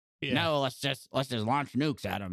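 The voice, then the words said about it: Kurtwood Smith impression. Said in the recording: “great Kurtwood Smith impression”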